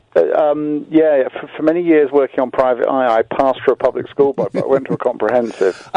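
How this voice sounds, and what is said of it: Posh English accent. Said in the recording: “You sound posher than I imagined.”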